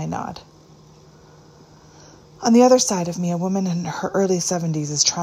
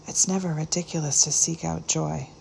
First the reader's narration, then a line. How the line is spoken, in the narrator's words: said the friend softly